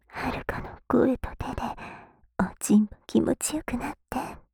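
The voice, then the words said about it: Whispering. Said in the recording (Japanese): “ささやきながら”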